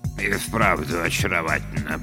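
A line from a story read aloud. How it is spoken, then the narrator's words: Muttering. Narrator (Russian): пробормотал Бёрджесс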